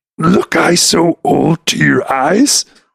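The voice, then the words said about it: Yoda character voice impression. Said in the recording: “Listen to his Yoda”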